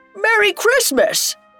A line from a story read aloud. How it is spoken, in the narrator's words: a shout of